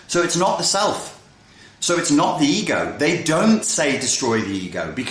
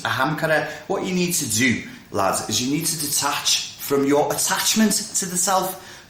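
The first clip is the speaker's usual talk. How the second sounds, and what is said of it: Put-on Scouse accent. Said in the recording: “which sounds great in a Scouse accent”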